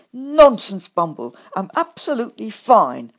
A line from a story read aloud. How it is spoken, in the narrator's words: I snapped back at him